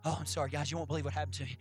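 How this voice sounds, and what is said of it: Breathless, out-of-breath delivery. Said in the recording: “I'm out of breath”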